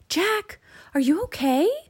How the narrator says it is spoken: shouted from the treehouse

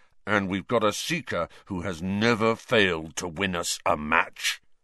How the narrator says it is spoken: Wood rumbled, glaring at Harry with a kind of furious pride

